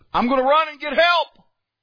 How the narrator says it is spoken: he hollers down to him and he says

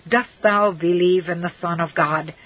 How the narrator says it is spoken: John exclaimed

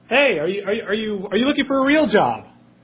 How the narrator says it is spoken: he yells out

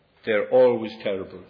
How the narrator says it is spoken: said

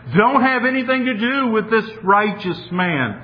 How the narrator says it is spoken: Pilate's wife, she's even screaming in a sense

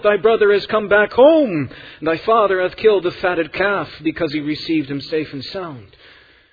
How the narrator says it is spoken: he shouts it out

